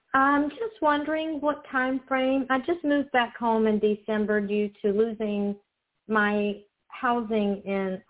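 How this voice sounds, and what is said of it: Southern American accent. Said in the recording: “Love your southern accent”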